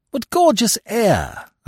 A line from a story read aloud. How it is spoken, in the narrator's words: exclaimed